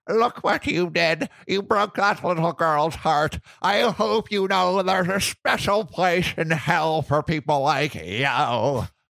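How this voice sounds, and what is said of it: Put-on grandma voice. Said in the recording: “What was my grandma voice?”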